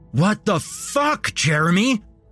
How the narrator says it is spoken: I screamed

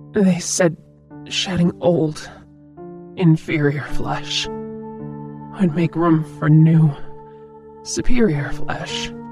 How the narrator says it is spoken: she croaked

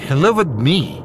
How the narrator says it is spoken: Louise stuttered, panting

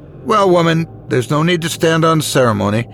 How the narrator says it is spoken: the Lord said sternly

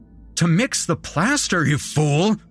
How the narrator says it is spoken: he cried

